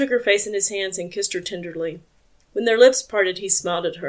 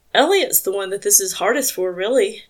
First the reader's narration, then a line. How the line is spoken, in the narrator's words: Joe continued, his voice rough with emotion